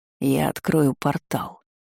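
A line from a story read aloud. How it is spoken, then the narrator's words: Through gritted teeth. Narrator (Russian): процедил Адий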